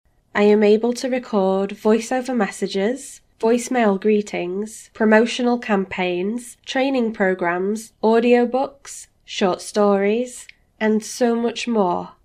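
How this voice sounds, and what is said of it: Neutral English accent. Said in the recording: “neutral sounding English accent”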